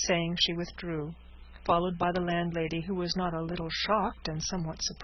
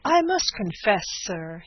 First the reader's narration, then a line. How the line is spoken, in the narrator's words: he exclaimed with heat